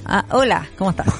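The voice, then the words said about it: Put-on Spanish (Spain) accent. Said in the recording (Spanish): “Mejor hay que hablarle como con acento español.”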